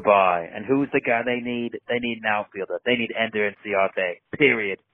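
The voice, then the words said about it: Fun fake character voice. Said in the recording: “it's a fun voice ... fun fake voice ... Sounds like the guy from Wet Hot American Summer”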